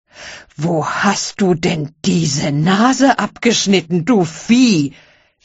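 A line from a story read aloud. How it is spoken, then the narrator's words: Angry scream. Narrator (German): schrie zornig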